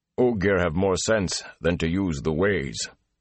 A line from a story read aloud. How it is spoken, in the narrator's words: Loyal growled